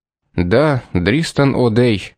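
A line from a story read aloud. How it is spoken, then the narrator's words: Gloomy confirmation. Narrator (Russian): подтвердил мрачно Карсон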